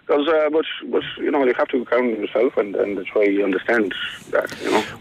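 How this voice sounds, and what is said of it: Mixed Polish and Irish accent. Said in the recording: “I love the mix of Polish and Irish accent. ... because it's a bit Irish. You know, it's a total mix. It's magnificent. It's kind of half Polish accent then with a bit of, do you know what I'm saying, like?”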